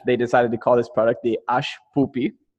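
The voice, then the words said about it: Put-on Israeli accent. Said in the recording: “I'm going to do one of my accents, yes. The Israeli”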